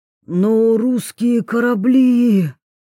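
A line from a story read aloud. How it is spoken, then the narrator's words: Horrified hoarse rasp. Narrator (Russian): в ужасе прохрипел Идзуми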